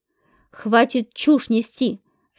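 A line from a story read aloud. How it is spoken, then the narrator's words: Bark. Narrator (Russian): рявкнула я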